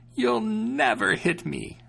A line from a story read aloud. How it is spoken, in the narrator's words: she exclaimed